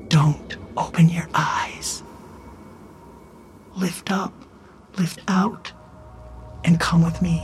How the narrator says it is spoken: whispered

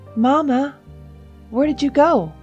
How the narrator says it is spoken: called out

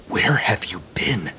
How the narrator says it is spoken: He whisper hissed at the little girl, not wanting to wake the others

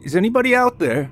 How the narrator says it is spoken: James yelled again into the woods

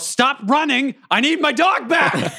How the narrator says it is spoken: I yell

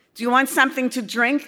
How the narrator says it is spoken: asked my mother

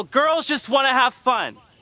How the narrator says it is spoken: yell

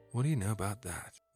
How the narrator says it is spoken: he said quietly

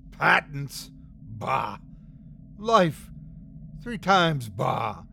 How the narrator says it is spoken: hissed the leader

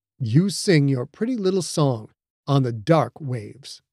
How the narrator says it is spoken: Funaki said, her voice low and smooth

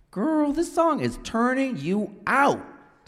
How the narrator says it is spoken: Tavi shouted at her over the beat

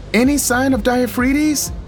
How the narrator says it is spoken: Iris shouted over the music

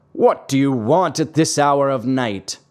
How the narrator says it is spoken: He called down angrily

